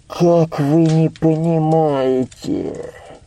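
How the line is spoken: Muffled old man's voice. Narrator (Russian): Глухо, не отнимая ладони от лица, проговорил старик

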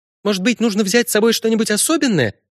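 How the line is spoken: Rapid chatter. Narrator (Russian): тараторила Синтия

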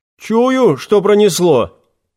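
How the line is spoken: Snort from back rows. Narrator (Russian): хмыкнул кто-то из задних рядов

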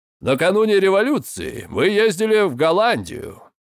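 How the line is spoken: Plain. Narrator (Russian): сказал Роджер

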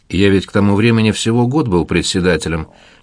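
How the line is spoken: Plain. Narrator (Russian): ответил Семичастный

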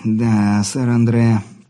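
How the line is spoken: Hoarse. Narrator (Russian): прохрипел

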